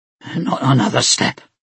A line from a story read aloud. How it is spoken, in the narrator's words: he growled